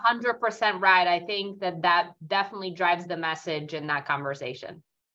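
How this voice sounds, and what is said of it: Thick Italian New York accent. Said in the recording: “a very thick Italian New York accent”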